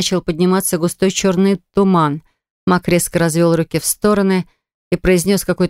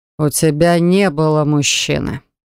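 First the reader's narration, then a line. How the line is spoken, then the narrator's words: Harsh, frightening voice. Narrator (Russian): сказал он жестким и страшным голосом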